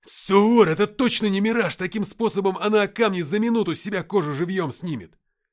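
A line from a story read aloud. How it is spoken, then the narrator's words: Shouted. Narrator (Russian): закричал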